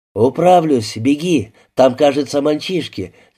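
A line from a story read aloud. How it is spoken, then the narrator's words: Incoherent shout. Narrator (Russian): несвязно выкрикнул ему Антон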